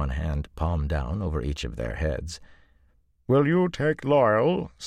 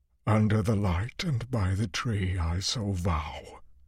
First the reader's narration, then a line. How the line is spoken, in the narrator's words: he said hoarsely